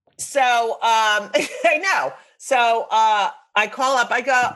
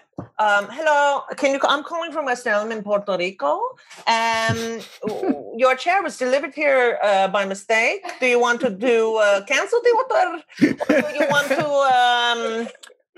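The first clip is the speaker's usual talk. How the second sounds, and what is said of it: Put-on accent imitating a caller. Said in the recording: “I'm sure I'll get in trouble for the accent”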